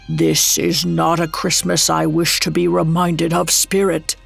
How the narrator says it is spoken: Scrooge croaked out

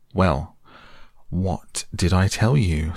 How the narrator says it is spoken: said the rat very crossly

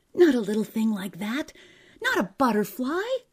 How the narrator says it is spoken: cried Eccles

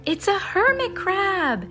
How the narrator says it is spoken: exclaimed Vikram

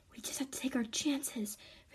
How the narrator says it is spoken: Faith whispers

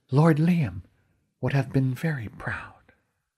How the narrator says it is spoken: In my ear she whispered

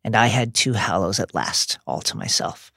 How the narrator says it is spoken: Dumbledore says bitterly

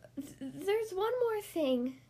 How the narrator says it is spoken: she pleaded

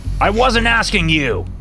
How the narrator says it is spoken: he yelled at me

